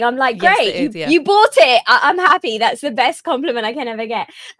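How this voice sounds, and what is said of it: British accent. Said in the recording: “you come up with this like British accent”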